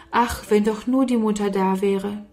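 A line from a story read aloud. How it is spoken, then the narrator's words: Sigh. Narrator (German): Oft seufzte Sarah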